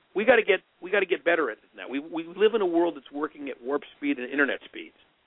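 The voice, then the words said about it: Frustrated, exasperated tone of voice. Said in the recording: “you hear the frustration in my voice, it's genuine”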